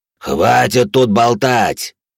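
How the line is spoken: Loud rough growling. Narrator (Russian): Третий голос, громкий, грубый, рычащий

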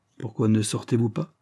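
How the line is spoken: Curt tone. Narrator (French): ajouta-t-il d'un ton bref

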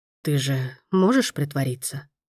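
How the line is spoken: Hoarse close whisper. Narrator (Russian): хрипло прошептал он, едва не касаясь губами ее уха

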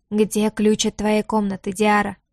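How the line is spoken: Unexpectedly hoarse, low voice. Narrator (Russian): Голос получился неожиданно хриплым, низким настолько, что Лютер себя едва узнал

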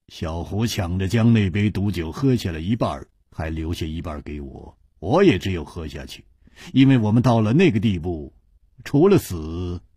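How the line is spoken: Flat, indifferent. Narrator (Chinese): 姬冰燕淡淡地说

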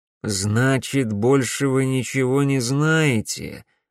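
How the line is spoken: Disappointed drawl. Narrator (Russian): разочарованно протянул Беркут

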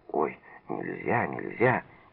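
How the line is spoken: Frightened whisper. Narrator (Russian): Лиза испуганно зашептала

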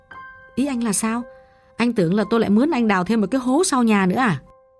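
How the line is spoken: Relieved, amused. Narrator (Vietnamese): Gã thở phào và bất giác mỉm cười

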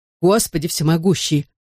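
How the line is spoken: Hoarse wheeze. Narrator (Russian): прохрипел Дэви Рэй

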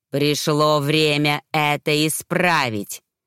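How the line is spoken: Girl in eerie adult voice. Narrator (Russian): произнесла девочка чужим взрослым голосом

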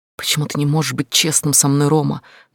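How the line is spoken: Quiet, almost whispering. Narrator (Russian): спросила я, голос был тихим, почти шепотом

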